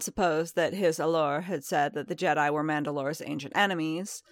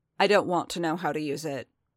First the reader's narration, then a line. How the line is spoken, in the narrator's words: Din said flatly